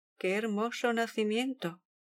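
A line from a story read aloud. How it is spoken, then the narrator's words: Exclaimed. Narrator (Spanish): exclamó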